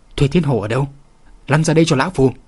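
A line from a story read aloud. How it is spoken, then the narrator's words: Furious loud old man's shout. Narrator (Vietnamese): Đại trưởng lão tức giận đến mức lông tóc dựng đứng, lớn tiếng quát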